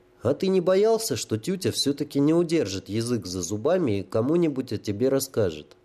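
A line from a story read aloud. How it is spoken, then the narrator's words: Plain. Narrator (Russian): спросил Илья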